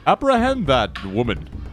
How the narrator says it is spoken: Doran still disguised as Bebe, he yells

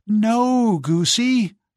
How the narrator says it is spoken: cried Giselle

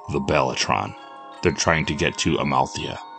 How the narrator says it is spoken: replied Steve

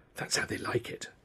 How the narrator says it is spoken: whispered

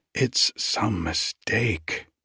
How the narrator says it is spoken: she said faintly

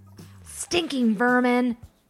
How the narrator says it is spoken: Bidlow shouted

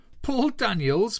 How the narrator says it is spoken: Martin laughed, as if it was funnier than the two Ronnies, his laughter tinged with abject terror

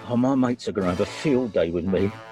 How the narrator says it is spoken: he said, with a groan

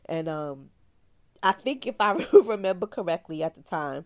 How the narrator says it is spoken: the grandmother laughed

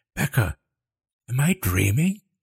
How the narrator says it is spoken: She gasped

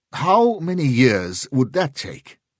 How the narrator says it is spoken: Sheridan snapped

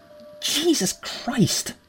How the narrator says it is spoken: Miss Jameson gasped, in fright

